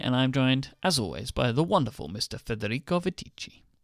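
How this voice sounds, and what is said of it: Put-on Italian accent. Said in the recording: “Why is your accent getting worse every time? ... I'm going for different types of Italian now.”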